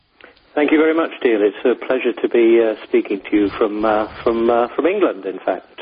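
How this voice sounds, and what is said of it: English accent. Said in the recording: “we can tell from your accent where you're from”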